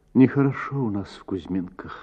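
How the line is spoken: Sad, sighing reply. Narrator (Russian): ответила Татьяна и печально вздохнула

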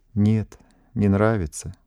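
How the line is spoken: Heavy sigh. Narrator (Russian): тяжело вздохнула Даша

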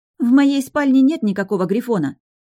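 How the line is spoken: Indignant. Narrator (Russian): возмущенно произнесла Лина

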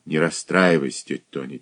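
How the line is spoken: Quiet. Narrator (Russian): тихо сказал Олег

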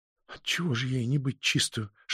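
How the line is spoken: Whisper. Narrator (Russian): шепнула

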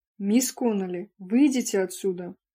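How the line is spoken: Barked. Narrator (Russian): рявкнула сестра Пул

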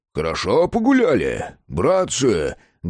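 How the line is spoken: Loud bark. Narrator (Russian): гаркнул царевич

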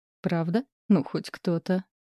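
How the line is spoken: Giggling. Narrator (Russian): хихикнула Никки

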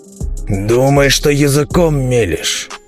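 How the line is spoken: Father's growl. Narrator (Russian): рыкнул надо мной отец

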